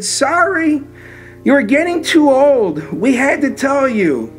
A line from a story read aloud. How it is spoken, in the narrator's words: she just cried and she said